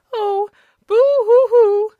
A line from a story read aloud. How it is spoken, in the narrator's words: sobbed the woman, giving way to a fresh burst of grief